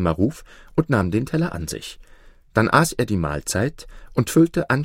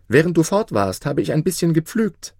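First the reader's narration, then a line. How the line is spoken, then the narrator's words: Calling after someone. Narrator (German): rief ihm Maruf nach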